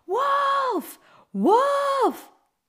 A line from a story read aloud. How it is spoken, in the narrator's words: the boy shouting